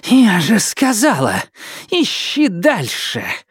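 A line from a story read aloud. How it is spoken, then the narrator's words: Breathless exhale. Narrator (Russian): выдохнула Хорикс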